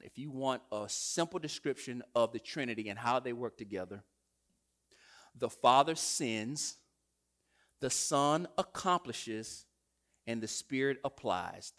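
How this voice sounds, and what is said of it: American country accent. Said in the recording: “forgive my country accent”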